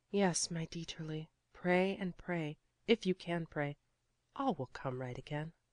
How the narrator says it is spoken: she whispered softly

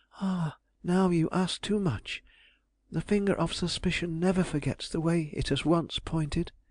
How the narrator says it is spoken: she sadly answered

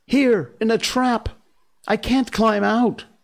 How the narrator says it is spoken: cried Mowgli

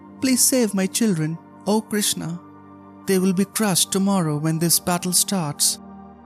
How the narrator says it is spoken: The sparrow pleaded

